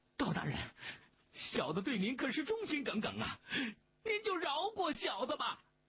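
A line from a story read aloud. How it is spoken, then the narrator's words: Desperate pleading. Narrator (Chinese): 邝小毛跪在地上苦苦的哀求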